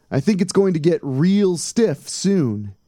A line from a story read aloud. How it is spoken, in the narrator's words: Tom yelled